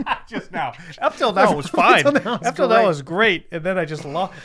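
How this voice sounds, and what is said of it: Usual voice. Nothing is said of it.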